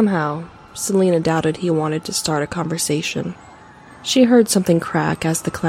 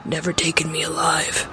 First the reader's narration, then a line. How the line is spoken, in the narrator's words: He muttered something about